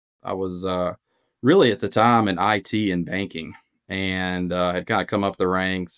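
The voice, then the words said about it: Southern US accent from Alabama. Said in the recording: “you could probably hear the accent from Birmingham, Alabama”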